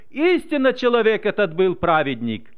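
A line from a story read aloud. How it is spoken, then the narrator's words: Exclaimed in praise. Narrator (Russian): Один офицер даже воскликнул, прославляя Бога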